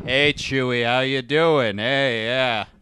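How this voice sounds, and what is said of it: John Wayne-style impression. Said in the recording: “What are you, John Wayne?”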